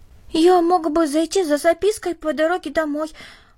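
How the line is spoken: Timid suggestion. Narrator (Russian): робко предложил Дэви

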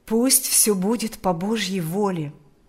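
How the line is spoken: Plain. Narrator (Russian): ответил отец Кирилл

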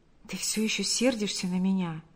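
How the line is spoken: Whispered. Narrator (Russian): прошептал Павел

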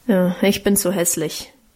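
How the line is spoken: Grumbling. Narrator (German): brummte Guste

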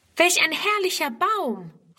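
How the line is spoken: Immediate exclamation. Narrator (German): ruft Friedrun sogleich

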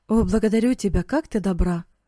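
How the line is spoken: Exclaim. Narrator (Russian): воскликнул он

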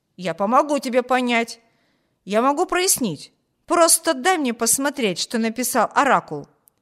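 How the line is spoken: Exclaiming. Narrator (Russian): воскликнул Виберт

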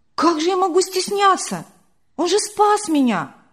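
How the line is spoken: Surprised exclamation. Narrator (Russian): удивленно воскликнула Вера

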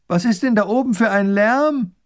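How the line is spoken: Call from below. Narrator (German): Die Prinzessin ruft vom Fuß des Hügels

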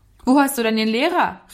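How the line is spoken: Calling out. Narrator (German): rief er ihm zu

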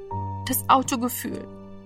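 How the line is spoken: Dull murmur. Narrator (German): murmelte er dumpf

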